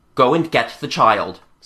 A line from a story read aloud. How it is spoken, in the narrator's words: said